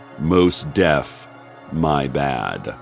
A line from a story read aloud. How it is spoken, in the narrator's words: Harrison said gravely